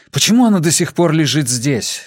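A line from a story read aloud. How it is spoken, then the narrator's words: Angry question. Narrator (Russian): сердито спросил Джад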